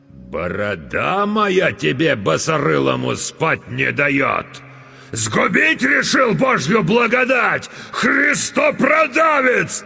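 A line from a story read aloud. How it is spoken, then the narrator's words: Sudden enraged yelling. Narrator (Russian): Налившись кровью, вдруг заорал атаман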